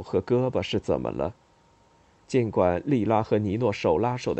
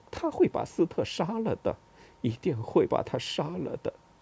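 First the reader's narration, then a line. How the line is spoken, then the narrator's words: Quiet, low voice. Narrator (Chinese): 农奇亚小声说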